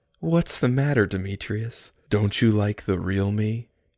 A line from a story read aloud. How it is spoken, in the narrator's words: She twirled and laughed again, throwing her head back